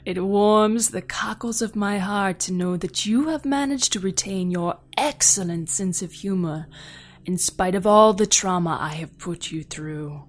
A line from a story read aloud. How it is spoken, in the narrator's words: chuckled DeCollin